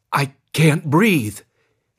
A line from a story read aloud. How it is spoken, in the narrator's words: finally gasped as a wave of panic swept over him